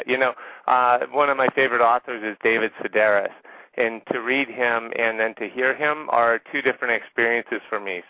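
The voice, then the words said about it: Rural Southern US accent. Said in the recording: “my hick accent and not be two octaves higher”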